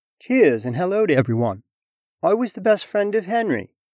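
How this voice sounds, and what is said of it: Put-on British accent. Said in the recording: “you did a really nice job with my British accent”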